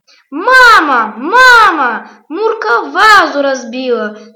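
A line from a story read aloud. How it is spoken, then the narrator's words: Shouting. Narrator (Russian): закричал Петя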